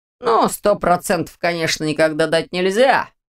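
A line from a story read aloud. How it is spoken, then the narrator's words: Skeptical hmm. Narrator (Russian): хмыкнул Ваня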